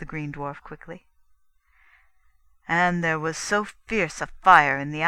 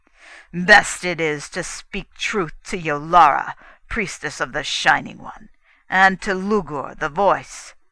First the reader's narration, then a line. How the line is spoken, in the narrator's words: cried menacingly